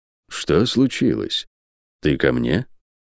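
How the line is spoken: Slightly hoarse old voice. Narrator (Russian): Декас усилием воли успокоил себя и привычно, чуть хрипловатым старческим голосом произнес

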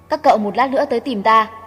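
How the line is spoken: Cold, dazed. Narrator (Vietnamese): Thiên Ứng sắc mặt thất thần, lạnh lùng nói

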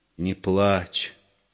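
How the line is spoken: Quiet request. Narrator (Russian): тихо попросил Егор

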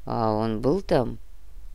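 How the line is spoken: Gruff grumble. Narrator (Russian): буркнул Гинзбург

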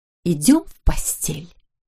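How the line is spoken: Whisper. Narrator (Russian): прошептала она

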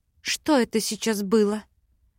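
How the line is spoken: Breathless exhale. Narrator (Russian): выдохнула я

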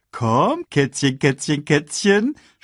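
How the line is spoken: Mocking. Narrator (German): spottete

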